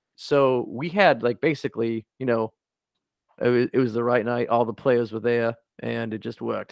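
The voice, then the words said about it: Put-on accent. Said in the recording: “I don't know why this is the accent I'm going with right now”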